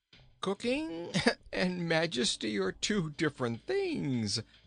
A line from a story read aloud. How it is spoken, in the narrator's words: laughed the little king